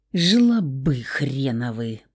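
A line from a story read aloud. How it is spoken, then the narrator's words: Muttering through teeth. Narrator (Russian): процедил Саня и устало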